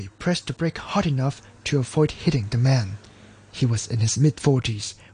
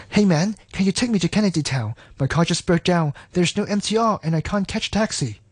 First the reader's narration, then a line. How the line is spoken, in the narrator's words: he gasped